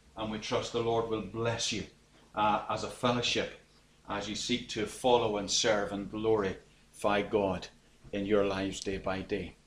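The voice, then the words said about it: Irish accent. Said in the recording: “I'm Irish, as you probably can pick up from my accent.”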